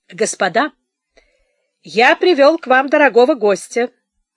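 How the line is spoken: Loud introduction. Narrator (Russian): громко отрекомендовал Штоф

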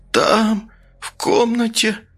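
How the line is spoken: Rasp through bloody lips. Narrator (Russian): прохрипела окровавленными губами

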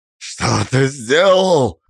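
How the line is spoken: Stunned growl. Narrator (Russian): прорычал Александр, ошарашенно

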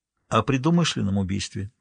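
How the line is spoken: Quiet. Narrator (Russian): тихо сказал Харри

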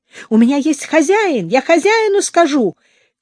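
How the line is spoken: Shout. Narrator (Russian): крикнул он наконец

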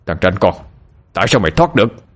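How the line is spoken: Shouting. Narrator (Vietnamese): Minh Tiến quát lên

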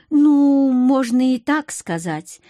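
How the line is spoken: Uncertain answer. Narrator (Russian): неуверенно ответила я

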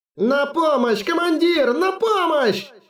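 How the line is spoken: Pained shout. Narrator (Russian): закричал, которого продолжали кусать за шею

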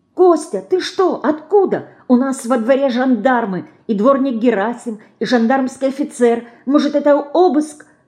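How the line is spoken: Hurried female whisper. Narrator (Russian): торопливо зашептала она

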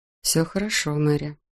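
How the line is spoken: Quiet. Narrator (Russian): негромко произнес голос

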